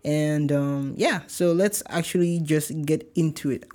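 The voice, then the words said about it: Nigerian accent slipping in. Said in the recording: “my Nigerian accent just came”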